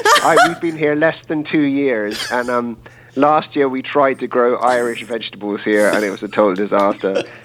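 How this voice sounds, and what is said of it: Irish accent. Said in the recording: “I'm from Ireland myself ... what part of Florida you were really from with that accent”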